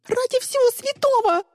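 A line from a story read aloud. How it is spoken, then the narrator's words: Shrieking. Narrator (Russian): завизжала Мира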